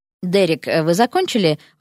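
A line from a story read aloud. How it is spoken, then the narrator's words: Even tone. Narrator (Russian): ровным тоном спросил Кристофер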